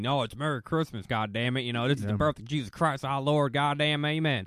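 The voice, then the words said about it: Put-on American southern accent. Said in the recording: “It always finds its way to a fucking southern accent, too.”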